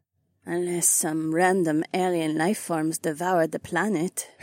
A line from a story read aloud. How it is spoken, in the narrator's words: Haywan mumbled